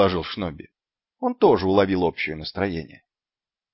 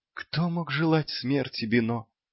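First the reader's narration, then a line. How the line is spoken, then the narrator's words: Barely audible clown. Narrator (Russian): едва слышно проговорил клоун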